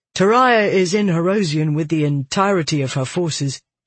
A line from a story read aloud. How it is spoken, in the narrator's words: he said